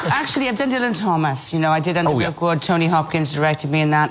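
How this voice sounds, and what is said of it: Welsh accent. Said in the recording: “your own accent ... Wales!”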